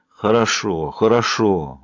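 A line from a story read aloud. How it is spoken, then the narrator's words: Heavy sigh. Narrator (Russian): Билл тяжело вздохнул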